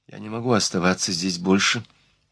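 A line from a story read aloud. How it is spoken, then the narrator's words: Muttered through clenched teeth. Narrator (Russian): пробормотала она сквозь зубы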